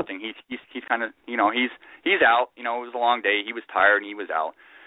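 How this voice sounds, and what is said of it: Usual voice. Nothing is said of it.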